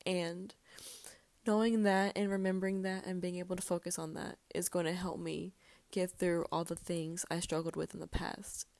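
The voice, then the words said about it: Tearful voice, breaking while crying. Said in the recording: “I'm pretty sure y'all can hear it in my voice breaking. I've been I'm crying right now”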